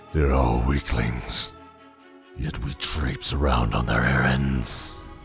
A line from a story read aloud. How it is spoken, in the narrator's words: growled the tiger